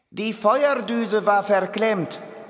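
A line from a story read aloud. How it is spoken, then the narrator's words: Calling up from below. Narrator (German): ruft Bimmelmann herauf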